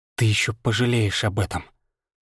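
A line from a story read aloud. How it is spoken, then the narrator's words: Hissed threat. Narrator (Russian): прошипела она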